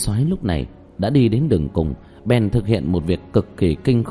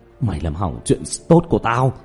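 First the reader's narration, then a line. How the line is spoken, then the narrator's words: Trembling, bitter hatred. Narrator (Vietnamese): Kim Soái cực kỳ oán độc, run rẩy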